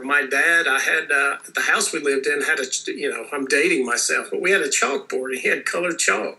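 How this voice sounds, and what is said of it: Nasal Tennessee twang. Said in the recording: “my nasal twang, I come from the hills of Tennessee”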